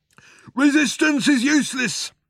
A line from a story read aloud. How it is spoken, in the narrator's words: shouted the Vogon guard back at him